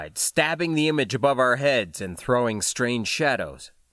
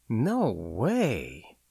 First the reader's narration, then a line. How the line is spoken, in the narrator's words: I breathed, not believing what I saw